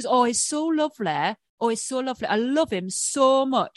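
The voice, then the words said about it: Put-on Yorkshire accent. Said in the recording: “Yorkshire, they all talk like this ... I mean, that's the accent.”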